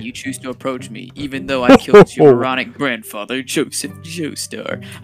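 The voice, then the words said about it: Fake British accent. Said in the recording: “I gotta do the fake British accent, because that's what they did the English dub.”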